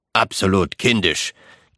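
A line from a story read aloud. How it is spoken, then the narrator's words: Grunted. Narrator (German): grunzte Richter Wargrave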